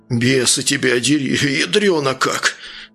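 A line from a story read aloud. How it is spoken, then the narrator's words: Exhaled. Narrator (Russian): Выдохнул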